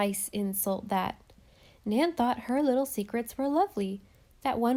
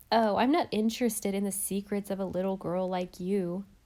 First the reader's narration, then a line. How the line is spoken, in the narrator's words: said Dovey